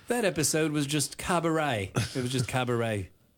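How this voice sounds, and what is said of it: Bad Simon Cowell impression. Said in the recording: “bad Simon Cowell impersonation”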